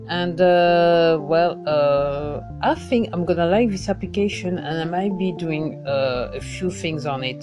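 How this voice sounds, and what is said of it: Attempted French accent. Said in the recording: “If you like my French accent, I'm trying hard, but not hard enough, I know.”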